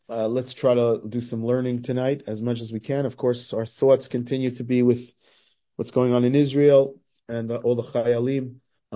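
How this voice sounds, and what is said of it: Hoarse, congested voice. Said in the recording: “I'm a little bit hoarse and a little bit a sore throat and a little bit stuffed up”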